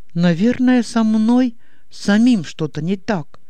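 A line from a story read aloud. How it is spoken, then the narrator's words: Sad statement. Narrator (Russian): грустно констатировал Иннокентий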